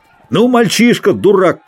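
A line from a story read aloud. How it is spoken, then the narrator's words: Shouting. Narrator (Russian): крикнул рыцарь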